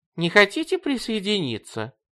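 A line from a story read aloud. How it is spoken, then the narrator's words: Sweet, sugary voice. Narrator (Russian): спросила она сладким голоском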